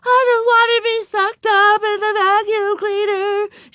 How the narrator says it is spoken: she sobbed

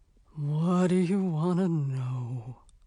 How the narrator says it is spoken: it asked in a grudging kind of voice

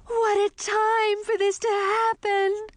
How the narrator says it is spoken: wailed

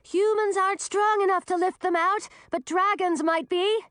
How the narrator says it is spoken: yelled Millie

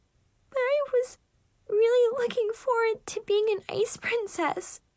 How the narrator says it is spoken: Chloe whimpered

